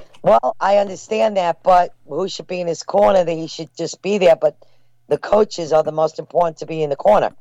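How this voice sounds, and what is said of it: New York accent. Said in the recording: “you got an accent. You're not from L.A., huh?”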